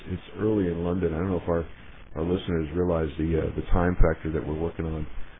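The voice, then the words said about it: Slightly hoarse, croaky voice. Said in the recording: “I've got a bit of a frog in my throat”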